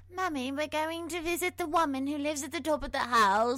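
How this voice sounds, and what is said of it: Put-on accent quoting a child. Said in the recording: “Fantastic accent as well.”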